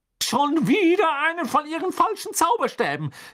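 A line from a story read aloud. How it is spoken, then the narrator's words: Calling out. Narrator (German): rief sie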